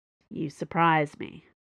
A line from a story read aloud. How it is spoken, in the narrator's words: Dana said dryly